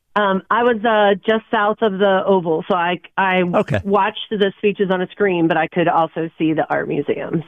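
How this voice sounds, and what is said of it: Hoarse, strained voice. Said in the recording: “my voice is a little shot”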